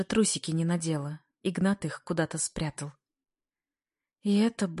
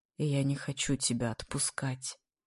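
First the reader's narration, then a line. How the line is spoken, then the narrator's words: Quiet. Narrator (Russian): говорит тихо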